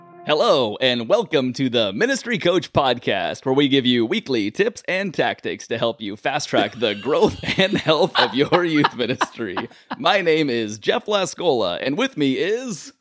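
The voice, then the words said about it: Game show host announcer voice. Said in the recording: “You know why that voice is perfect? ... You sound like a game show host.”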